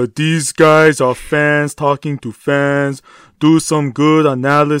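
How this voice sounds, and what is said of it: Usual voice. Nothing is said of it.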